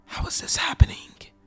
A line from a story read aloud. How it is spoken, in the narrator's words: I whispered